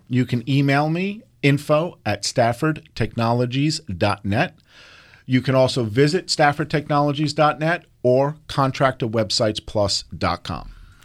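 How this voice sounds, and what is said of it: New York accent. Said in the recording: “with the accent, it's a New York accent.”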